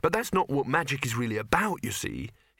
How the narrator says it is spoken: he added quickly

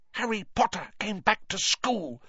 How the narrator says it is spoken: he whispered miserably

